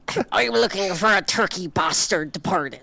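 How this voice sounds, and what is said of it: Imitates another person's voice. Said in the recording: “my impression of if Liam Neeson was the president”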